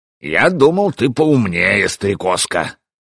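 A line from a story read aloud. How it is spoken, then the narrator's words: Scoffing. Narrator (Russian): хмыкнул Свартхёвди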